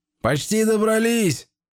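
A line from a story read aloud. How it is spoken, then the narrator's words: Shouting. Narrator (Russian): крикнул Иларем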